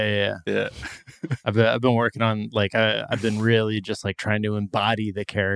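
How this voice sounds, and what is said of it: Usual voice. Nothing is said of it.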